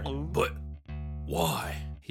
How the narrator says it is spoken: He whispered

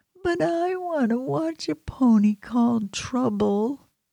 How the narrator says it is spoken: his sister stomped her foot and whined

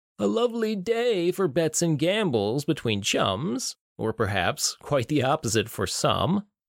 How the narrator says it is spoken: Zekin chuckled

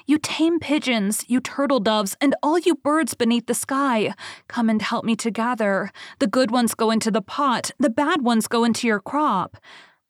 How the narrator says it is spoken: called out

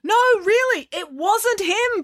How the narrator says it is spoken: pleaded Mr

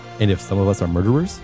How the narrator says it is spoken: Sigzil asked quietly

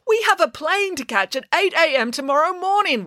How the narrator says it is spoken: wailed Mr

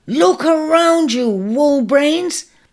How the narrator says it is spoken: an excited yell from the rear

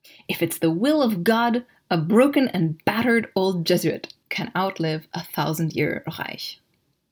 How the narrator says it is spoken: would say triumphantly

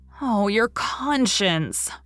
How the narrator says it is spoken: moaned Anne

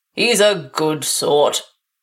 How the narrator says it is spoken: chuckled the old man

